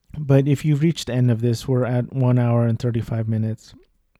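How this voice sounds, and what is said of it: Boring, monotone, sad-sounding voice. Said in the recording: “my boring and monotone voice. that sounds very sad and depressed”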